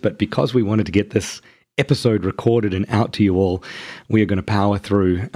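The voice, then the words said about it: Hoarse voice with laryngitis. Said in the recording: “as you can probably hear from my voice, I have laryngitis”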